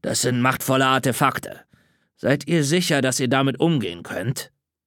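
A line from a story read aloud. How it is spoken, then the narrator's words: Growling. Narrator (German): knurrte Caleb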